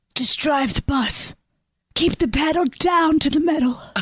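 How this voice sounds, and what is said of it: Whispered voice. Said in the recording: “I don't know why you're whispering.”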